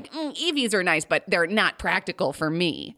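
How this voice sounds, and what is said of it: Impression of a friend's dad. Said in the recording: “I was doing an impression of your dad there.”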